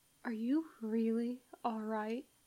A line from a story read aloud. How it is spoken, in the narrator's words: McCoy says, barely adding voice to a whisper so that the Usava guards don't hear him